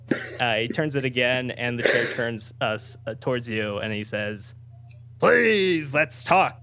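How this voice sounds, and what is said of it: Cartoon character voice impression. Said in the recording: “SpongeBob, so as far as I'm concerned, this is, I guess, probably like a perfect spot-on impersonation.”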